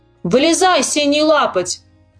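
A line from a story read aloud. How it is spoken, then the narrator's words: Shout. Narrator (Russian): крикнул он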